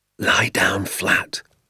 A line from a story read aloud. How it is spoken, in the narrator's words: my father whispered